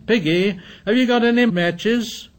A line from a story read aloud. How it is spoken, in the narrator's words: Ralph shouted at him